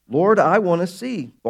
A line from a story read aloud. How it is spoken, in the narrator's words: Bartimaeus replied